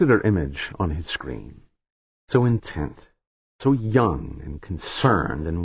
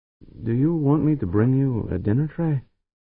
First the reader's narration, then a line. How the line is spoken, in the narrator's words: The young woman hesitated a heartbeat, then asked hesitantly, almost timidly